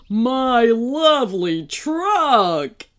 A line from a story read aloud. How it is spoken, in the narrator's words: he whined